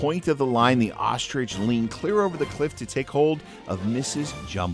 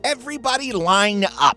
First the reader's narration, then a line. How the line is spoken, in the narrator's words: shouted